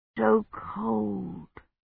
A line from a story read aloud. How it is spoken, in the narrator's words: he murmured